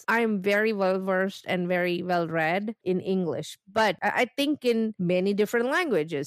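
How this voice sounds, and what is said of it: Non-native English accent. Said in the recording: “as immigrants, and you can tell from my accent”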